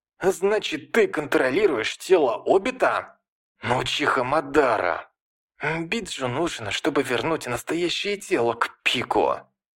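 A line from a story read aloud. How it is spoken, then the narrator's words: Exclaimed through gritted teeth. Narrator (Russian): заскрежетал зубами и воскликнул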